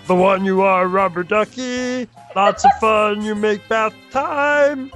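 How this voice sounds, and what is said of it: Sings in a Yoda voice. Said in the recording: “in a Yoda voice... And now in Yoda voice... I'm going to try to do this in Yoda diction too.”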